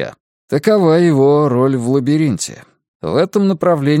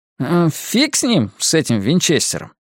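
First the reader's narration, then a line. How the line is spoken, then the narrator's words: Plain. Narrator (Russian): говорит Мак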